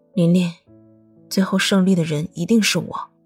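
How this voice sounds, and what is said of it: Speaking quietly, in a soft voice. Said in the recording (Chinese): “小声的说道”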